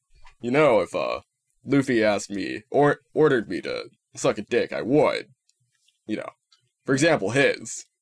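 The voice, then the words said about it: Zoro impression. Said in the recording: “great Zoro impression.”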